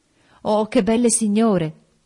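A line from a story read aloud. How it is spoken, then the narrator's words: Exclaimed. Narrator (Italian): esclamò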